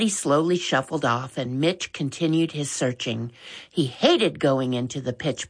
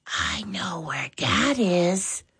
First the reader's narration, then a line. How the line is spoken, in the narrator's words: She said quietly